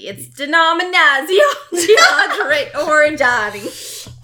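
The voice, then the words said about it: Exaggerated mock Italian accent. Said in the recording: “I like how every other syllable is like a this ... To all the Italian people who are listening to the podcast, truly sorry.”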